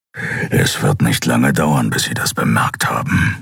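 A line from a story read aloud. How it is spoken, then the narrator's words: Growl. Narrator (German): knurrte Kero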